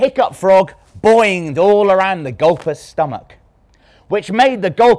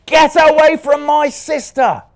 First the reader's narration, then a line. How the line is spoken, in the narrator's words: shouted Louis